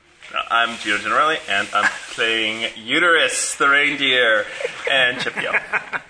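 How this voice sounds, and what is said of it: Deep radio announcer voice. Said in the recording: “This is my deep radio voice.”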